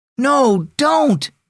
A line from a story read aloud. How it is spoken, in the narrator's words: Dad called out